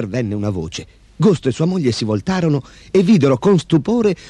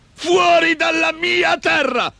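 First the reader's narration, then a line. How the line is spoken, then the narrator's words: Shrieked. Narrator (Italian): strillò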